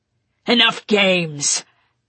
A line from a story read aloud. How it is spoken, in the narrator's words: Victor growled at him